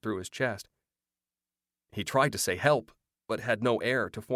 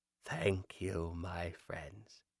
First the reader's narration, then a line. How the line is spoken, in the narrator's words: she whispered